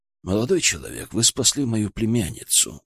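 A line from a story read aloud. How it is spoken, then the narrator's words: Dull, muffled. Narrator (Russian): глухо ответил он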